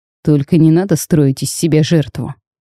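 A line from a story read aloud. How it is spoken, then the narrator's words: Contemptuous snort. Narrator (Russian): презрительно хмыкнул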